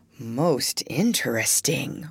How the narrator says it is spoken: murmured the doctor

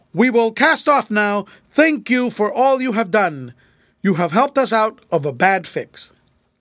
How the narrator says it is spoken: Fred shouted to the people on the Caledonia

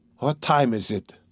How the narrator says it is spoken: asked Raskolnikov, looking round uneasily

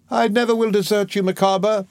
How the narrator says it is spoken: she exclaimed

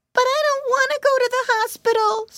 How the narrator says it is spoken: squealed Pinky

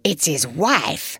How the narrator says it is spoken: the fat woman in front of me whispered

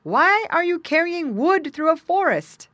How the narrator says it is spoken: he shouted to him

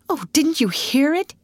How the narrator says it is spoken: gasped Ruth

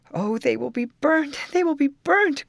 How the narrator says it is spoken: cried my cousins as they saw the flames rapidly encircling the building

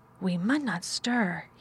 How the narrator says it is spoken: he whispered in broad Yorkshire

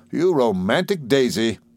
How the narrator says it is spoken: said Steerforth, laughing still more heartily

